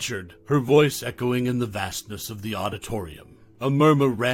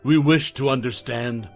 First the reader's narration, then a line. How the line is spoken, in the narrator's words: Morgan continued, her voice firm